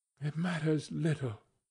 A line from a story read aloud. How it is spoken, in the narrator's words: she said softly